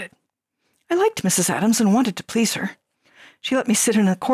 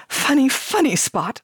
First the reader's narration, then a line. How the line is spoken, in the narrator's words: I would laugh, miming hysterical laughter